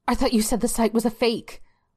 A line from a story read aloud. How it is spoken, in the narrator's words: Belinda blurted out